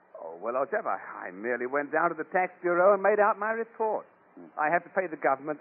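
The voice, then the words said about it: Exaggerated upper-class English accent. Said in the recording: “After all, you're English. ... I'd feel silly walking about with this ridiculous accent.”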